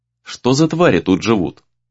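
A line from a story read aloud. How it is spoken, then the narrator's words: Quiet question. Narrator (Russian): тихо спросил Рэй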